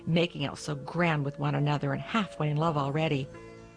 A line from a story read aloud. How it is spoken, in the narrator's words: the cook snorted